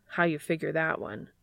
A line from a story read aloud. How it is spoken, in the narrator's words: Castiel sighs, exasperated